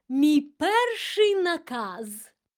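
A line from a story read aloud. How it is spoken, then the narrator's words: Exclaimed. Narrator (Ukrainian): вигукнула вона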